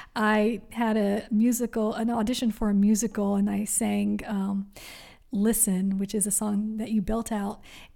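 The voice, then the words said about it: Slightly raspy voice. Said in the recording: “my voice is a little raspy because I have been singing all day”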